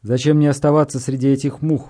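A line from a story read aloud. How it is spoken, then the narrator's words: Grumbling. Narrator (Russian): проворчал Харимхеп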